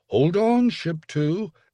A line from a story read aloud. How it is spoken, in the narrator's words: Aston cried